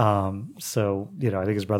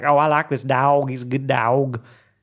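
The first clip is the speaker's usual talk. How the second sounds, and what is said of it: Imitates a heavy Tennessee accent. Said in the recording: “his brother had a huge accent. ... And they're from Tennessee ... he would just talk like that”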